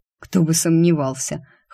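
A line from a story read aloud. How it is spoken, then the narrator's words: Skeptical snort. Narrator (Russian): хмыкнул Рик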